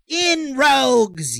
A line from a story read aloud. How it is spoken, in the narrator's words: yelled the outlaw